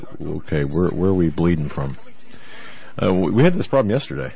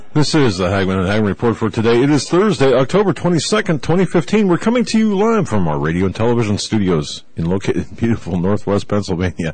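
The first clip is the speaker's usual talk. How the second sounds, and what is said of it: Announcer-style radio voice. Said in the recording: “That's my radio voice.”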